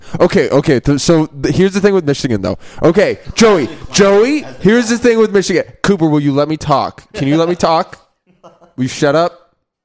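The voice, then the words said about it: Imitates another person's voice. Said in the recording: “here's my Aaron impression.”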